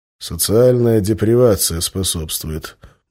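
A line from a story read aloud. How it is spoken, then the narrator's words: Muttered. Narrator (Russian): буркнул я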